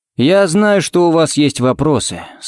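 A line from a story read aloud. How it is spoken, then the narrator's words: Muffled, flat. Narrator (Russian): сказал он глухо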